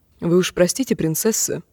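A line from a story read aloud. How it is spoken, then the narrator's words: Quiet. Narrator (Russian): тихо промолвил Гарин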